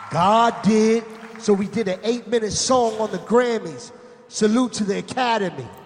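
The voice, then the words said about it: Imitates another person's voice. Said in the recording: “Who's DJ voice? ... That was Khaled.”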